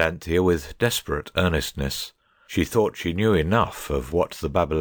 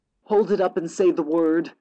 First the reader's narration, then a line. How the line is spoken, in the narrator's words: cried Cyril